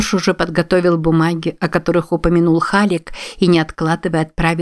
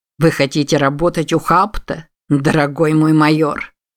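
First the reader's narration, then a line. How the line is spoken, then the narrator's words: Sour tone. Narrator (Russian): сказал ему Стентон кислым тоном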